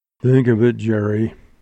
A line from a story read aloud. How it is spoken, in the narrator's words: he groaned